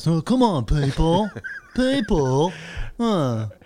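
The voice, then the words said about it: Imitates another person's voice. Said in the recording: “It's not a good impression, but it's just that he says people a lot... it is a pretty good Im-”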